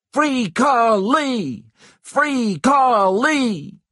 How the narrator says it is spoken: the black people who had gathered around the square started to shout

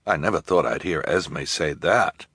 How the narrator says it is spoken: Jerome murmured

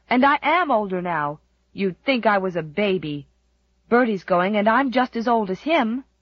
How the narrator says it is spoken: cried Jem indignantly

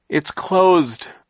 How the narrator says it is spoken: Klaus cried, his voice rising with despair and in order to be heard over Hurricane Herman

